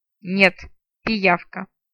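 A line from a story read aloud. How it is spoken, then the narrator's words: Through gritted teeth. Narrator (Russian): сквозь зубы процедила наемница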